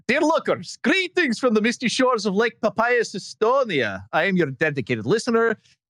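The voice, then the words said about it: Put-on Estonian accent. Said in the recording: “my worst Estonian accent ... So the accent is enough.”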